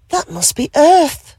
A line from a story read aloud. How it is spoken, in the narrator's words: she gasped with joy